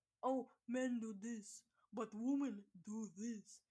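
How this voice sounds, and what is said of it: Caveman-style mocking voice. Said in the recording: “I'm doing caveman accent.”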